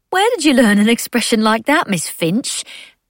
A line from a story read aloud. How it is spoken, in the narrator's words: Mab laughed